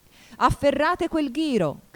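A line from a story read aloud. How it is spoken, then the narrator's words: Shout. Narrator (Italian): gridò la regina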